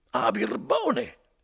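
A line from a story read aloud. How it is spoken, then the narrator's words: Exclamation. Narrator (Italian): esclamò Renzo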